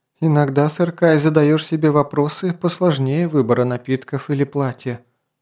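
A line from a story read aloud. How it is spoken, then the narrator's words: Princess's sigh. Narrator (Russian): вздохнула принцесса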